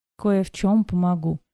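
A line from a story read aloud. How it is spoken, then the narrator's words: Sad, smiling. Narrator (Russian): улыбнулась я грустно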